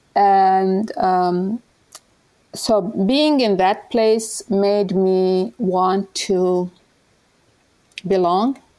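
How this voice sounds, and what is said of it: Speaker's own foreign accent. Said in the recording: “I have an accent.”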